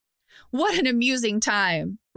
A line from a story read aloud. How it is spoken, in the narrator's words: Rakdos bellowed through the open window nearby